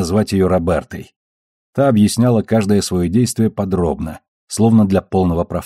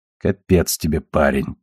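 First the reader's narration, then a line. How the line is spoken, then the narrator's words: Muttering under breath. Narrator (Russian): бормотала себе под нос Бобби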